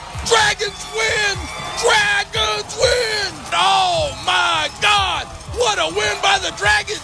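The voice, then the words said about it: Excited shouting, straining voice. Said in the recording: “Oh, I'm gonna lose my voice.”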